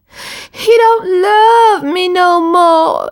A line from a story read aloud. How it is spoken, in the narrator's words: shouted